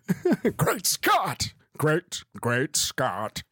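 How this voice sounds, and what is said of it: Bad Doc Brown impression. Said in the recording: “Doc Brown ... That's the worst impression.”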